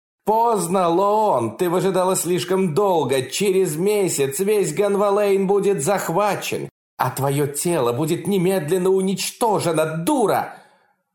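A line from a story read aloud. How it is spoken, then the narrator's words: Furious shout. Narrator (Russian): яростно закричала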